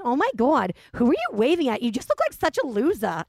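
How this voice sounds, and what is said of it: Imitates another person's accented voice. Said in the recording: “She has like this accent.”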